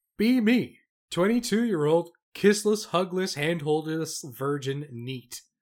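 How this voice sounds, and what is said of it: Mock corporate voice. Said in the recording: “do the corporate voice”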